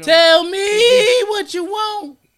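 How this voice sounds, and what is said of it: Sung line with deliberate voice crack. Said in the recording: “See how my voice cracked? I did that on purpose”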